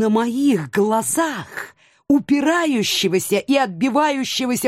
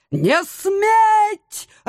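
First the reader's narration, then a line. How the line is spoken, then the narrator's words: Shouting. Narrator (Russian): орал он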